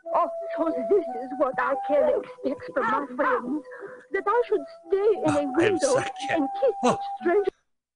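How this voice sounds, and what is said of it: Character voice with French accent. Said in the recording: “we get her with a French accent ... she does a great job”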